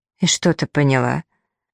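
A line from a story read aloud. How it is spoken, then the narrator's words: Shaky voice question. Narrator (Russian): Таня спросила дрогнувшим голосом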